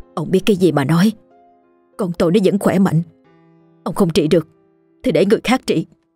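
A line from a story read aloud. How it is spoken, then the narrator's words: Harsh, clenched woman's voice. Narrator (Vietnamese): Bà ... gằn giọng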